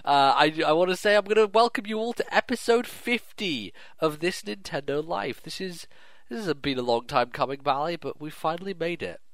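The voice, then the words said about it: Congested, blocked-nose sick voice. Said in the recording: “I have some tissue up my nose ... The sound of your voice sounds like you have tissue up your nose. ... I'm a little bit sick, I'm a little bit dreary”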